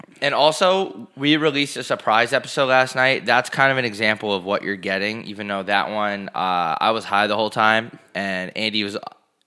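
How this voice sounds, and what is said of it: Sick, rough-sounding voice. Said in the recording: “I've been very sick this episode. I'm sorry if my voice sounds worse than usual, and I already have a pretty shitty voice.”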